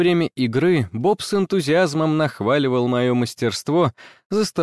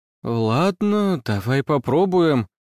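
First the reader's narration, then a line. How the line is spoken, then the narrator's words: Uncertain. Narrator (Russian): неуверенно сказала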